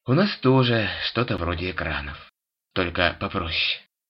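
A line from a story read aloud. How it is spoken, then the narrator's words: Ancient one sighing. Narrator (Russian): вздохнул древний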